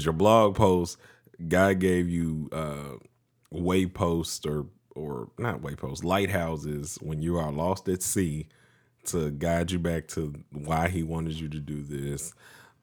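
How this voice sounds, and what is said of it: Deeper voice than usual. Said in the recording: “my voice is a little bit more deep ... allergy season for me”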